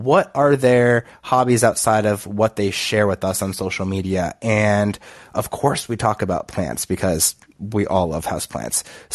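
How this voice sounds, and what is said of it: Nasal congested voice. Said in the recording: “I'm still struggling with allergies, which is why I sound a little nasally... pardon my nasally voice”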